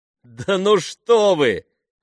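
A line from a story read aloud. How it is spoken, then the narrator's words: Laughing. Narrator (Russian): рассмеялся Джереми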